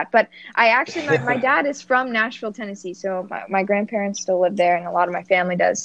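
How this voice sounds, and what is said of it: Northern US (Yankee) accent. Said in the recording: “my Yankee accent”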